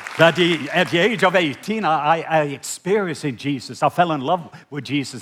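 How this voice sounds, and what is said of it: Mixed Irish and Scottish accent. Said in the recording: “some of my accent is kind of a mix between Irish and Scottish”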